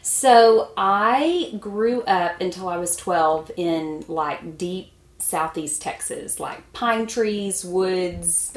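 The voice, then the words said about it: Southern Texas accent. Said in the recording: “If you can't tell, she's not from Minnesota... Is that precious accent stem from?”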